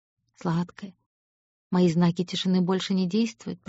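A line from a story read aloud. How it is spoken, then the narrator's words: Whispered. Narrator (Russian): прошептал он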